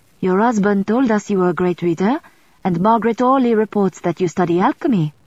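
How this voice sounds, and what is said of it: Soft French accent. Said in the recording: “The woman's accent was softly French”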